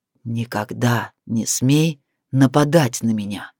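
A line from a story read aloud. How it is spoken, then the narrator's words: Growling into ear. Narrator (Russian): прорычал ей на ухо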